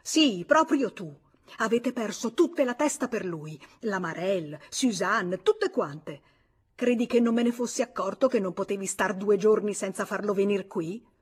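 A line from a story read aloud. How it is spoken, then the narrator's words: Shouting in face. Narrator (Italian): Lui le gridò in faccia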